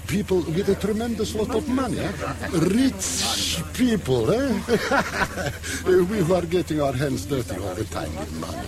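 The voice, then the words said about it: Heavy foreign accent. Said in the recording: “It is my bad accent.”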